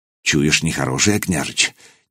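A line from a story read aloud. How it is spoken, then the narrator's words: Quiet, experienced man asking. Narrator (Russian): негромко спросил десятник Малига, опытный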